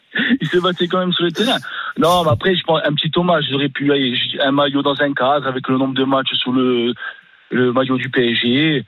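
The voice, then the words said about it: Corsican French accent. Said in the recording (French): “tu as un bel accent. ... supporter corse du PSG.”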